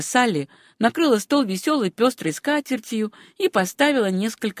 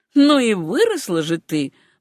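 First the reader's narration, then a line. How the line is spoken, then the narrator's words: Exclamation. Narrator (Russian): воскликнула она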